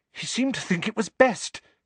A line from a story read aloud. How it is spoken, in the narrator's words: said Hermione, rather breathlessly